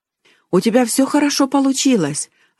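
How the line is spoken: Joyful. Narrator (Russian): радостно сказала тетя Ханна

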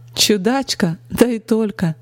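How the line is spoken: Cheerful laughter. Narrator (Russian): Весело рассмеялась она

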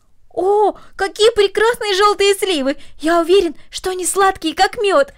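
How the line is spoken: Exclaiming. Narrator (Russian): воскликнул Дино

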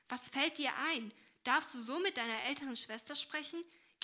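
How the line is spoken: Called out sternly. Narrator (German): rief diese ernst

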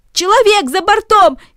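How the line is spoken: Shouting voices. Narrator (Russian): кричали одни

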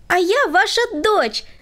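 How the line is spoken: Exclaiming. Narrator (Russian): воскликнула Света

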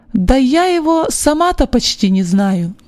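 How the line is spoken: Plain. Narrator (Russian): ответила она

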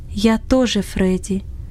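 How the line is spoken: Throat-clearing, then undertone. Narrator (Russian): Иосиф откашлялся и сказал вполголоса

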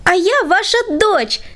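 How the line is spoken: Exclamation. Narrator (Russian): воскликнула Света

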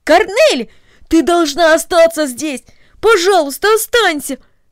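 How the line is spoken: Exclaimed. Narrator (Russian): воскликнул Дино

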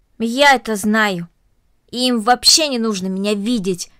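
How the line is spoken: Angry. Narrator (Russian): сердито произнесла Корнелли

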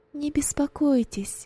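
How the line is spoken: Plain. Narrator (Russian): ответила Роза

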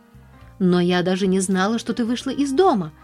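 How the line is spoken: Exclamation. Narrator (Russian): воскликнула Нэнси

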